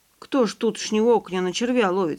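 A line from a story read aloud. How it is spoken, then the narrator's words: Plain. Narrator (Russian): сказал Иван Николаевич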